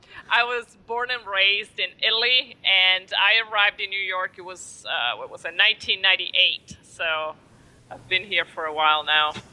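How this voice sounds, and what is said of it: Foreign accent, not Brooklyn. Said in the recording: “Anybody listening to your accent knows that it's not a Brooklyn accent.”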